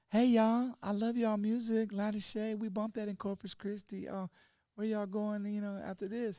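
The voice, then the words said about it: Sweet Texas southern accent imitation. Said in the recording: “the sweetest tone, got that Texas, you know, southern accent.”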